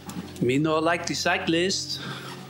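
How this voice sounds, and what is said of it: Generic put-on foreign accent. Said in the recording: “he said in a generic, possibly offensive foreign accent.”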